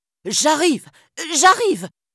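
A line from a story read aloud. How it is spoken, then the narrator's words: Exclaimed. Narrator (French): s'exclama-t-il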